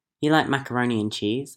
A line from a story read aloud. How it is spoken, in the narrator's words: Annie asked